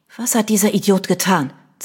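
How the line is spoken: Hissing. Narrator (German): zischte Vanessa

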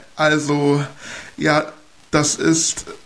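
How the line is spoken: Stammering. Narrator (German): stotterte ich herum

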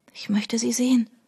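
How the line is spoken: Whispered. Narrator (German): flüsterte Trudy

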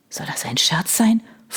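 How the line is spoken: Hissed. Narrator (German): fauchte Chris

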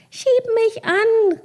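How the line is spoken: Calling out. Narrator (German): rief sie

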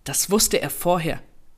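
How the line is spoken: Sharp retort. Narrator (German): erwiderte scharf

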